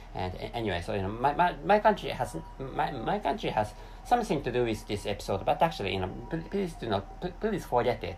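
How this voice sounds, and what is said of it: Japanese-accented non-native English. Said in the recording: “my accent must be really, you know, weird or strange. That is because I'm an East Asian person ... the name of that country is Japan”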